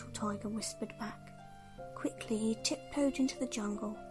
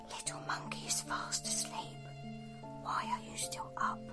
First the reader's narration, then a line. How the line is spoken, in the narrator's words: whispered